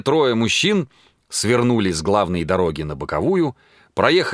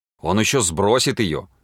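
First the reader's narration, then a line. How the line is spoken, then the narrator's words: Angry muttering. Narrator (Russian): сердито бормотал ветеринар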